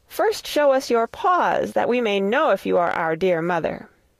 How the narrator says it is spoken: The little kids cried

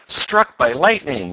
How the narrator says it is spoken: yelled Ned

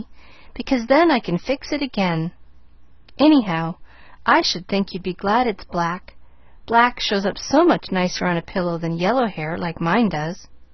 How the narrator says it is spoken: nodded Pollyanna cheerfully

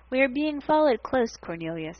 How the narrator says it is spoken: he said calmly

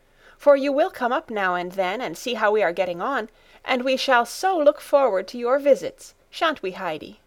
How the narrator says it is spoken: Clara called out

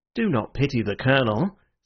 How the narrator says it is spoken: said Ratcliffe with a pale sneer

